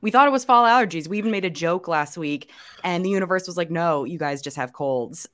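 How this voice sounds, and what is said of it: Raspy, hoarse voice from a cold. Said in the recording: “I'm over here sounding like Johnny Cash. ... I'm so raspy right now. ... not sound like this hopefully by next week ... trekking through these raspy voices”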